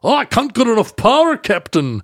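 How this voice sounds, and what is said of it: Poor put-on Scottish accent. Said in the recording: “my Scottish accent and my Irish accents are terrible ... It's not even good.”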